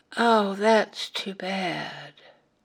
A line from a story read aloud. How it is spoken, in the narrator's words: The little boy, with eyes downcast, quietly said